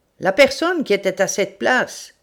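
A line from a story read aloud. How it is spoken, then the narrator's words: Shouting. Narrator (French): crie-t-il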